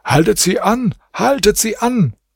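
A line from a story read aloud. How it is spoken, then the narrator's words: King calling to his men. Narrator (German): Der König rief seinen Leuten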